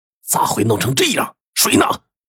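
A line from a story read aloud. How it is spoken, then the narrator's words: Stern sharp question. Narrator (Chinese): 张成……就厉声问道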